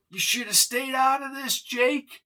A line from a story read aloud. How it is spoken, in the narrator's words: she screeched